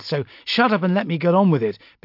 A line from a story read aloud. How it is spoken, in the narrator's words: snapped